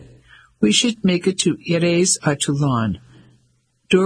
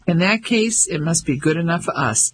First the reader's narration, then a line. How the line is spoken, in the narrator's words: Ellie laughed